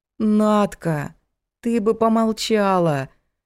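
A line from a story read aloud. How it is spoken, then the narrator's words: Moaning. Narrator (Russian): простонала Лена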